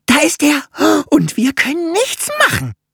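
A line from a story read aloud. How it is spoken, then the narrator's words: Wailing. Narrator (German): jammerte Fokuhila bei seinem Anblick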